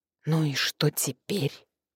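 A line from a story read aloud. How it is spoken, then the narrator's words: Whisper. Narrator (Russian): прошептала я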